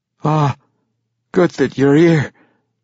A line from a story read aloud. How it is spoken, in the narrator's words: Ivorbreen slurred